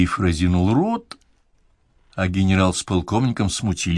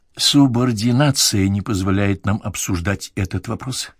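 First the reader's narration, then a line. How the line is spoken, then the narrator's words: Plain. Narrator (Russian): сказал он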